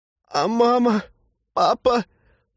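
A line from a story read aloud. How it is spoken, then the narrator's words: Sob. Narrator (Russian): всхлипнул Глеб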